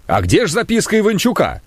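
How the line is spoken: Shouting. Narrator (Russian): Варламов крикнул

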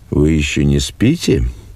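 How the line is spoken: Quiet. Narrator (Russian): подошел отец к окну и тихо сказал

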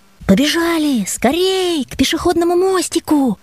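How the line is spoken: Shouting. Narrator (Russian): крикнул я Васе

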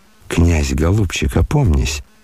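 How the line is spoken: Horrified whisper. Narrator (Russian): с ужасом шепнул генерал

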